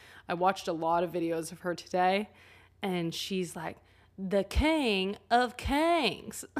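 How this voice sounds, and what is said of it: Usual voice. Nothing is said of it.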